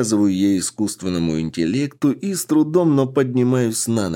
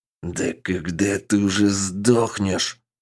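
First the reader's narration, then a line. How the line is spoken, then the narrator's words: Hissing through teeth. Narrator (Russian): Сквозь зубы прошипел фейк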